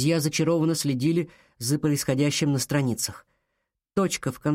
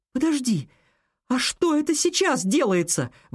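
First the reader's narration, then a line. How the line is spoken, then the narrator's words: Exclaimed. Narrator (Russian): воскликнула она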